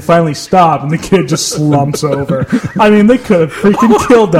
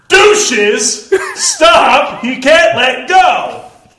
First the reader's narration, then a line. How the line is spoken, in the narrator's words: someone yelled out